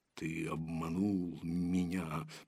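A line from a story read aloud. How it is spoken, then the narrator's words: Growled. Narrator (Russian): прорычал он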